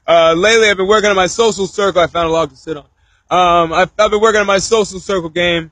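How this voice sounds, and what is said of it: Slightly cracky voice. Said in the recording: “You gotta hear my voice is a little cracky.”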